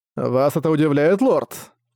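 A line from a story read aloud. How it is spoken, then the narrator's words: Laughing. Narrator (Russian): Рассмеявшись, сказал он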